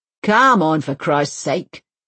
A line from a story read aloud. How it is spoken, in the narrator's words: he grunts